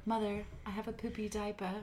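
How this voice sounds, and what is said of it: Fancy put-on British accent. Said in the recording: “Why does Jesus always have a British accent too? ... Because it's so fancy.”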